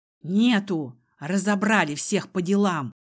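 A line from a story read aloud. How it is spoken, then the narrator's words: Hoarse snapping servant. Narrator (Russian): осипшим голосом огрызнулся слуга в исподнем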